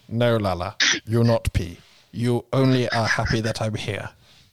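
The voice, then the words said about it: Put-on Ugandan-sounding accent. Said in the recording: “What are you Ugandan? ... What is that voice?”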